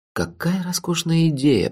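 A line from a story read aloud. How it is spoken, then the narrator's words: Whisper. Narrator (Russian): прошептал я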